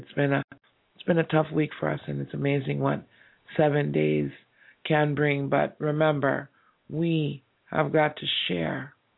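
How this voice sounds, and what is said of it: Tired-sounding voice. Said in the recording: “my voice is a little bit tired”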